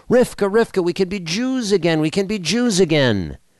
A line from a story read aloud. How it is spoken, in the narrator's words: called out to his wife